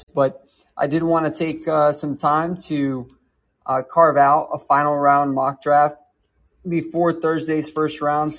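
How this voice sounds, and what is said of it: Slightly raw, hoarse voice. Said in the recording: “my voice is a little bit, it's a little bit raw”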